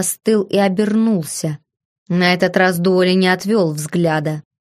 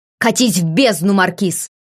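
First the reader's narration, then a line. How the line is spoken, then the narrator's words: Growled. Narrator (Russian): рыкнул я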